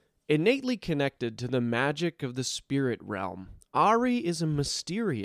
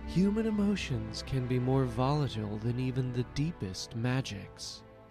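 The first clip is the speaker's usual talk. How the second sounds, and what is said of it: Character voice of a fox woman. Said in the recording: “my terrible impression”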